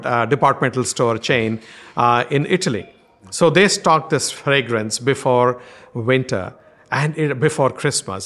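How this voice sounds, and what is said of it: Strong Indian accent. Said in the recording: “my strong Indian accent”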